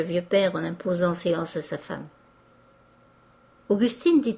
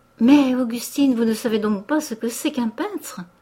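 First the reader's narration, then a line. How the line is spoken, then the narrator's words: Mother's horrified cry. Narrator (French): s'écria sa mère avec horreur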